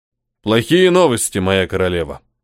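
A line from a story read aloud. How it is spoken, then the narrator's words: Deep bass voice. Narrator (Russian): пробасил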